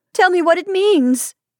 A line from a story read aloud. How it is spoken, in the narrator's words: she cried despairingly